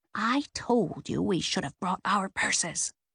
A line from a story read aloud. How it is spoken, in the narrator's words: she heard Nan's whisper from behind the shrub